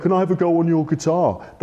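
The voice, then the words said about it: Imitates another person's voice. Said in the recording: “That's my Paul McCartney impression... he sounds like this, exactly like this.”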